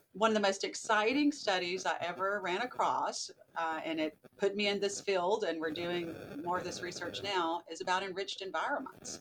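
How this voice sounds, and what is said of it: Southern American accent. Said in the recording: “You can probably hear my Southern accent still”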